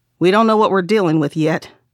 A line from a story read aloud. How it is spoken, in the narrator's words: the chief said